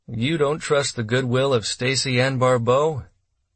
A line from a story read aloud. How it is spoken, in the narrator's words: Martindale asked dryly